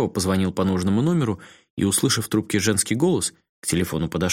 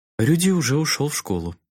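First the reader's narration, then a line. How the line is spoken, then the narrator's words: Serene woman over phone. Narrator (Russian): безмятежным голосом ответила женщина на том конце провода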